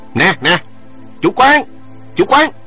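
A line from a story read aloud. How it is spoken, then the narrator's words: Loud calling. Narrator (Vietnamese): Trương Khang lớn tiếng kêu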